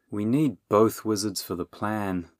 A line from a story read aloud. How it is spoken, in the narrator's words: Bernie sighed